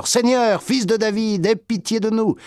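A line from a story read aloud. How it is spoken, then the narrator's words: Shouting louder. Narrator (French): ils criaient encore plus fort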